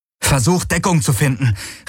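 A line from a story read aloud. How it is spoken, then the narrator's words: Shouting. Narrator (German): rief Galen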